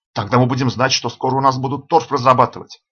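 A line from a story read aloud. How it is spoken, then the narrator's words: Plain. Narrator (Russian): ответил Панасик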